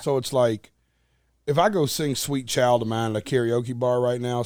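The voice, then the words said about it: Southern country twang accent. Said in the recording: “I'm from Nashville... just because it's how I talk, it's the twang... I'm a country boy at heart”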